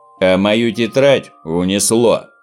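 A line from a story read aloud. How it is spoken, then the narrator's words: Gloomy. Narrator (Russian): мрачно сообщил Снорк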